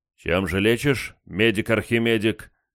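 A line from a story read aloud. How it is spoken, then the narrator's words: Rough question. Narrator (Russian): грубо поинтересовался я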